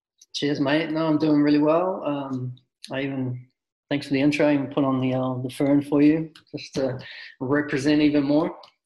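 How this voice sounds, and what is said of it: New Zealand accent. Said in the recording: “originally from New Zealand. So if you hear this funny accent while he's talking”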